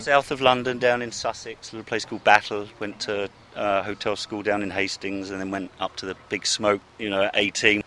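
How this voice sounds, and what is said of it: British English accent. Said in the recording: “you have kind of a Brit accent there.”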